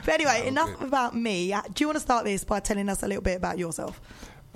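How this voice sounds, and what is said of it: Husky voice. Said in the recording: “natural husk radio voice ... That husky, it's always there.”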